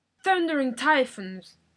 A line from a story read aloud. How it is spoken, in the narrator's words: the captain bellowed